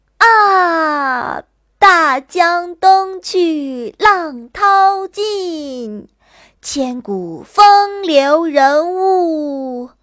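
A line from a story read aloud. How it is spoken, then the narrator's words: Loud relieved recitation. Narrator (Chinese): 不由心中一阵欣慰，忍不住大声吟道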